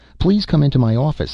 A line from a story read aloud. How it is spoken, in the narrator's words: he said quickly